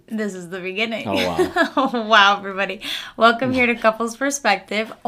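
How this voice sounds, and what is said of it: Losing voice, hoarse and cutting out. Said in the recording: “I'm losing my voice. ... I think I lost it in Powell. ... I just feel like my voice is in and out.”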